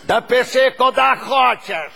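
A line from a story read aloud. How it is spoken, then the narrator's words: Angry shouting. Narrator (Russian): кричал водитель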